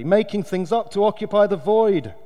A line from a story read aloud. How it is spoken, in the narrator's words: announced loudly